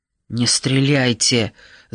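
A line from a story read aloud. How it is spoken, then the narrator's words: Hissing. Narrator (Russian): зашипел Нат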